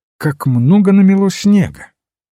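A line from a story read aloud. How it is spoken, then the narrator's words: Cheerful, conversational. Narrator (Russian): Он лишь сказал бодро, словно продолжал разговор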